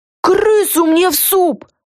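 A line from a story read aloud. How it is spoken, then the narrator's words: Shrill squeal. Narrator (Russian): взвизгнула Люся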